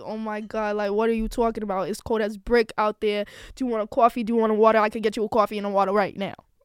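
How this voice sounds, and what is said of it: Put-on New York accent. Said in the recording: “You know, I could do a New York accent like this”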